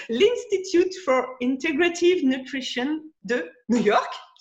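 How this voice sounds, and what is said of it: French-accented English pronunciation. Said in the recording (French): “excuse mon accent anglais”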